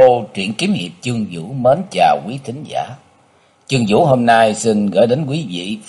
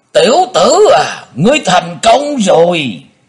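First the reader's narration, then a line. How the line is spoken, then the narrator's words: Echoing shout. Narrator (Vietnamese): Tiếng thét này vang dội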